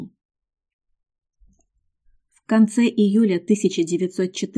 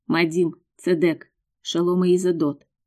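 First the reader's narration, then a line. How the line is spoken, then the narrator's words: Quiet. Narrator (Russian): тихо сказал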